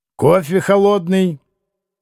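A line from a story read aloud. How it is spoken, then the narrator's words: Sharp shout. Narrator (Russian): крикнул резко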